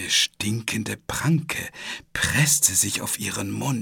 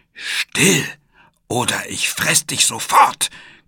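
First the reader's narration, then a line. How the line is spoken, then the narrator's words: Monster growling. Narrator (German): knurrte das Monster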